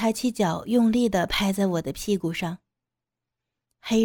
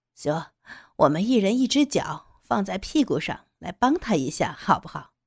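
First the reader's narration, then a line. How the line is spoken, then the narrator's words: Laughing. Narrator (Chinese): 黑人笑着说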